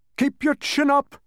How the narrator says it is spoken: shouted the humbug

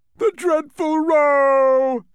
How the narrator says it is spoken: cried the anguished din

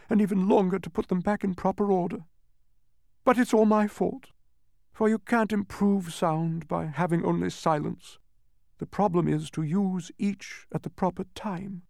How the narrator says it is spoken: sobbed

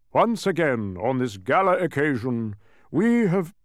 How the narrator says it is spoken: continued, his voice echoing in the almost empty room

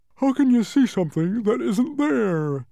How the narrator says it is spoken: yawned the humbug, who wasn't fully awake yet

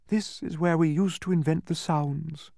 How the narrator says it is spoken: she said wistfully

